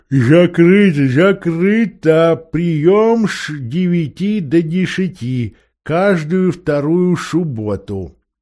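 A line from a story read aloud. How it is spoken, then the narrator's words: Mumbling toothlessly. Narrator (Russian): прошамкал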